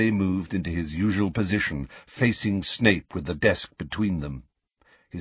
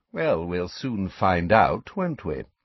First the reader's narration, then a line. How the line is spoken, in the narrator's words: said Snape smoothly